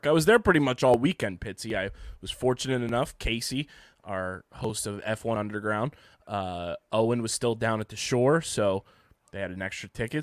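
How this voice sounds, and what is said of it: Hoarse, partly lost voice. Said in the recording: “as you guys can probably tell by my voice right now. I lost my voice a little bit today ... You can tell I lost my voice”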